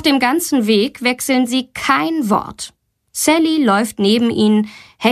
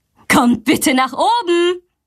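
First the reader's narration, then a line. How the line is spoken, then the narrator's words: Called out. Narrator (German): ruft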